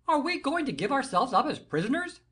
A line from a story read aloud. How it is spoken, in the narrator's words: cried Aramis, with an affection of hilarity